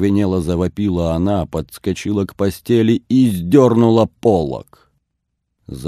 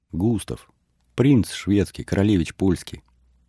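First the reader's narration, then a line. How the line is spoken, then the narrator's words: Solemn proclamation. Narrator (Russian): торжественно провозгласила Ксения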